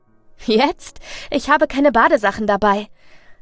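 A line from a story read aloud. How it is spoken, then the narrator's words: Laughing. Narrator (German): lache ich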